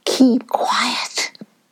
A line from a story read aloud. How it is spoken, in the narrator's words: Sungora whispered to Kobe